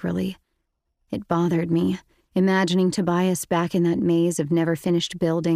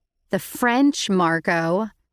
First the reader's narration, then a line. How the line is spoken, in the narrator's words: I said sarcastically